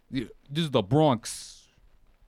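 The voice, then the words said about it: Put-on Bronx accent. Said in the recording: “I don't know what a Bronx accent is. ... I think you nailed it.”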